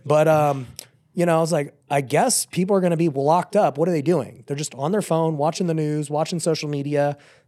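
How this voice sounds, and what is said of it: Weakened, partly lost voice. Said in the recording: “I think I have COVID right now. That's where my voice went.”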